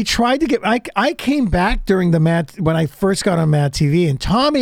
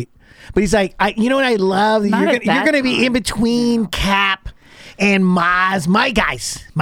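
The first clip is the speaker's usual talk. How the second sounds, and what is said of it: Imitates another person's voice. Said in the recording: “Is that your Tommy impression?”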